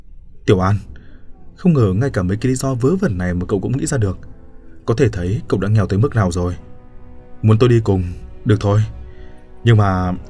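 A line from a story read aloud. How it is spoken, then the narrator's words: Sighing. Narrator (Vietnamese): Bạch Dực thở dài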